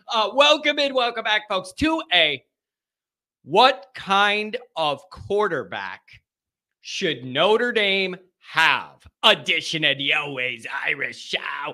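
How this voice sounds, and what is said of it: Strained, congested voice. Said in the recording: “my voice is struggling, man. I got the sinuses... I can't crank it up like I used to.”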